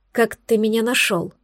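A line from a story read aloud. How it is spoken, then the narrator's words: Quiet. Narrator (Russian): произнесла тихо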